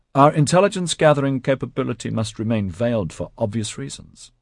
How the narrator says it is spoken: Oliver Tam replied smoothly

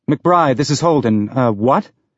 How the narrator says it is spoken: Her reply was in a clipped tone that was not encouraging

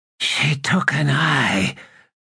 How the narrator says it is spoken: rasped the figure

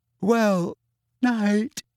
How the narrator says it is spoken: said, yawning widely

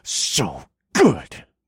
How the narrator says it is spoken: I growled

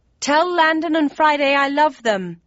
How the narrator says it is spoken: I yelled

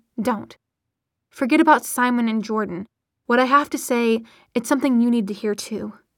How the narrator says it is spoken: Maya said sharply

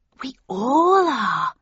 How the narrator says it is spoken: she breathed excitedly

